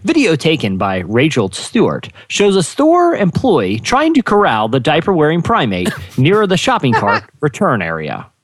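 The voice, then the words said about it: Newscaster reading voice. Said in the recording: “news voice”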